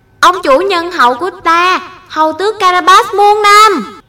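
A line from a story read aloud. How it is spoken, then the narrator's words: Peasants cheering loudly. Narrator (Vietnamese): những người nông dân, lớn tiếng hô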